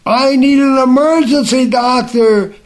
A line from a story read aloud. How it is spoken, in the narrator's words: he yelled loudly